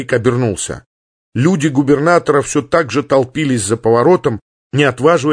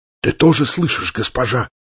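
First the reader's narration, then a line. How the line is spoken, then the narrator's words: Barely mouthed whisper. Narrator (Russian): одними губами прошептал полковник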